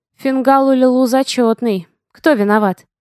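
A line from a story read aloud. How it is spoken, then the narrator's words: Calm. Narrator (Russian): Спокойно уточнила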